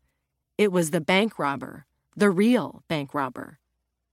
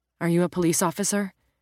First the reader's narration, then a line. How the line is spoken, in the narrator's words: she asked so quickly